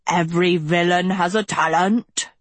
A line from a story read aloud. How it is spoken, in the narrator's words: she bellowed in her thick, sing-song voice